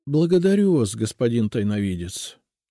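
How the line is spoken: Dejected sigh. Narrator (Russian): уныло вздохнул Тропинкин

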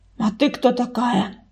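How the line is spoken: Rude question. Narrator (Russian): грубо спросила Саша

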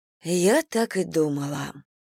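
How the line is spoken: Sighing. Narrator (Russian): вздохнула Анна

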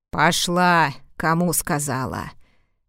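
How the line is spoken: Furious growling woman. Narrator (Russian): прорычала сеньора искриво, подобно рассвирепевшему кабану

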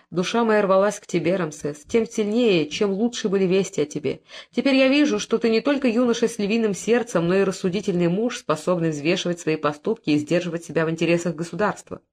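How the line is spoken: Tender fatherly greeting. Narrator (Russian): Он нежно поздоровался с сыном и сказал

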